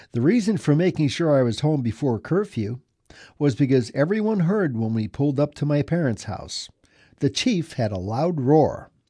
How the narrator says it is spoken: She chuckled and said

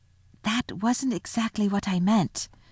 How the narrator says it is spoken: whispered Susan to Lucy

